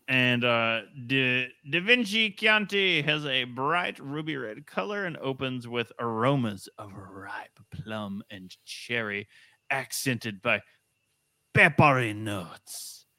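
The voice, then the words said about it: Put-on character accent, drifting between voices. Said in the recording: “just let like the accent linger. ... you went from like Sebastian and the Little Mermaid to like Marlon Brando and the Godfather. ... It's just going wherever it wants to go.”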